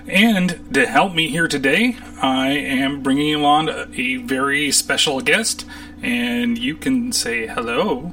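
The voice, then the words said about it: Throaty, hoarse voice. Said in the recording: “excuse the voice because it seems like I've got something in my throat”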